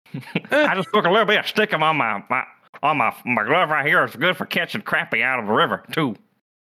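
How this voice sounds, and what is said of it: Put-on Appalachian country accent. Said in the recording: “Virginia accent on the sideline ... That was a fantastic Randy Moss ... Of course, it was bad ... It just knew a country accent ... I just wanted to get the Appalachia”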